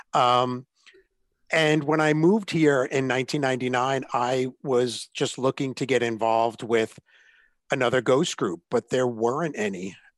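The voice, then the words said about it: Mixed, inconsistent regional American accent. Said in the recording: “I moved to Ohio via Atlanta, which is why my accent is all over the place”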